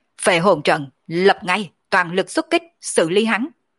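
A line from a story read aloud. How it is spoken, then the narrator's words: General's commanding shout. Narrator (Vietnamese): Mộng đại tướng quân mi mắt cũng hạ xuống trực tiếp quát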